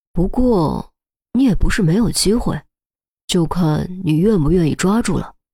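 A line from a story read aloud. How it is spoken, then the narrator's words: Deliberately lowered voice. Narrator (Chinese): 严峰故意压低声音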